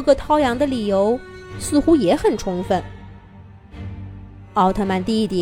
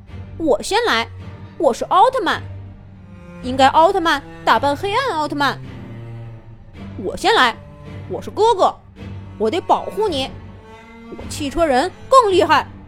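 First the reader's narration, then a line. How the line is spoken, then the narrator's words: Clamoring younger brother. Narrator (Chinese): 弟弟涛宇叫嚷道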